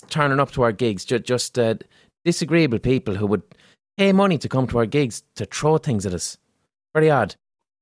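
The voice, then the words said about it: Neutral Limerick City Irish accent. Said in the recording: “I have a neutral enough Limerick City accent”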